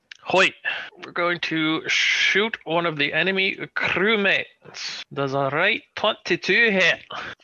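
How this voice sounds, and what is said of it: Put-on Scottish accent. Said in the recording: “What's a Scottish accent? Can Daphne just be Scottish from now on?”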